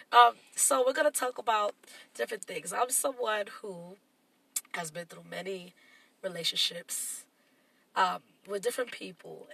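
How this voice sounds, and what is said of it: Nasal, congested voice. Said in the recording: “I know I sound a little nasally today. I'm a little congested”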